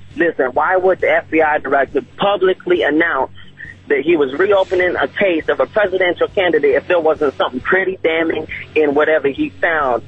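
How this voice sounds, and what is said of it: Distinctive regional American accent. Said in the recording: “I love your accent. You're like a character out of the movie Quarry. Where are you from? Mississippi? ... What a great accent.”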